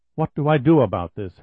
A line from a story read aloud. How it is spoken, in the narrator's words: Henderson asked himself crossly